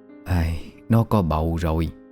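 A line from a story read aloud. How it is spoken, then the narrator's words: Sighing old woman. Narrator (Vietnamese): Một bà già trong xóm thở dài rồi lắc đầu bảo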